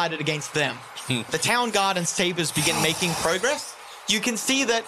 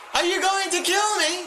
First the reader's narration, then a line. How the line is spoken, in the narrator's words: She yells as he charges forward